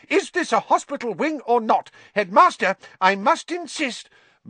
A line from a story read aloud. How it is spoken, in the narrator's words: said Madame Pomfrey hysterically